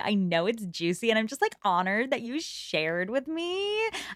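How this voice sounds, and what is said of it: Imitated gushing girly character voice. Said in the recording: “your Augusta impression ... girls who talk like this”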